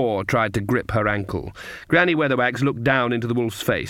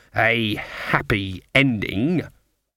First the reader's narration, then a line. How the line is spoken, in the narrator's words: she spat the words